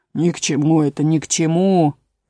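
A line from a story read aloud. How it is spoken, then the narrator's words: Grumbling frog. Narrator (Russian): проворчал лягух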